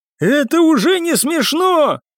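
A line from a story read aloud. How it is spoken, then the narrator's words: Shout. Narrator (Russian): крикнул он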